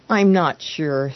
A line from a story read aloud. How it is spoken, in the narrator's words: sighed the man